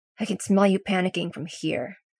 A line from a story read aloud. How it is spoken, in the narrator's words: Derek grumbles